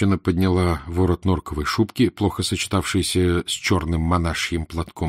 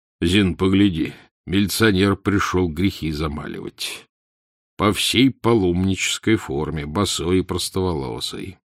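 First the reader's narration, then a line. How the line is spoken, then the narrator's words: Ironic deep bass. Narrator (Russian): Иронически пробасил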